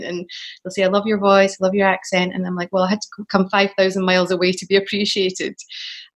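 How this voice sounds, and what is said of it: Scottish accent. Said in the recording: “especially with my accent ... I've worked more as a Scottish person here ... I always thought I was going to have to change my voice or change my accent”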